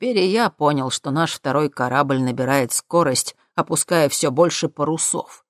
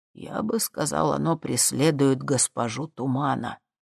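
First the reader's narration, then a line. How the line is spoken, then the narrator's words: Mutter. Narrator (Russian): пробормотал Дюжев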